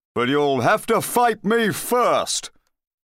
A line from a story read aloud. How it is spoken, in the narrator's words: he remembered that he was really a big bad knight and continued in a hollow voice